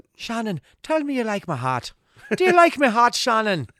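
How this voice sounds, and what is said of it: Deliberately bad Irish accent. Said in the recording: “He's got a terrible Irish accent”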